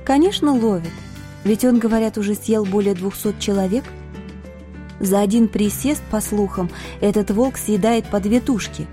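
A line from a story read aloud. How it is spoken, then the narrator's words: Calm explanation. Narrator (Russian): спокойно разъяснила мне девушка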